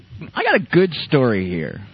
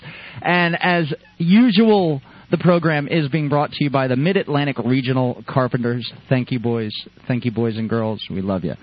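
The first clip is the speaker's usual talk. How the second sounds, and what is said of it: FM radio announcer voice. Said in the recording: “I got my FM radio voice going on”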